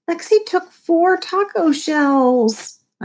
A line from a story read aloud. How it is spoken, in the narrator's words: I whined